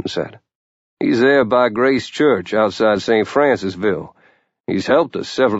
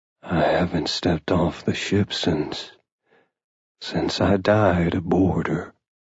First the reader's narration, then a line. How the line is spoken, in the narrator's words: Captain DeRue said softly